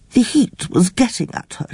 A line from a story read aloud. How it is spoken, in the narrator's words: she said quite cheerfully